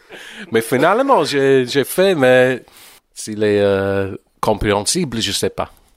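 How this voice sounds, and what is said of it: English accent speaking French. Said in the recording (French): “c'est toujours charming un anglais qui chante quelque chose en français avec... quand je parle français, c'est un peu comme Monty Python”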